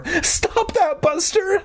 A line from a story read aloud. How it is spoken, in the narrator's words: Mindy pleaded